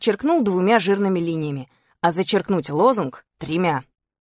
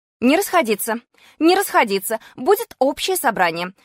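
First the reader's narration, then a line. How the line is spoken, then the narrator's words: Shouting, then snide. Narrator (Russian): закричала она и добавила ехидным тоном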